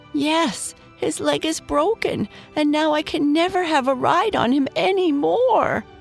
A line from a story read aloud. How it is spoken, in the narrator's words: sobbed Dave